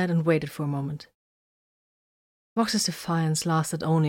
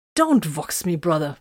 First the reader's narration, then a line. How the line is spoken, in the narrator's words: Vox snapped testily